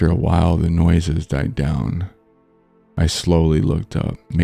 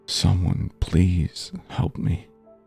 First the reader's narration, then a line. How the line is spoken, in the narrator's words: Pushing myself into the darkest corner of my closet, I pulled my knees to my chest and hugged them tightly, whispering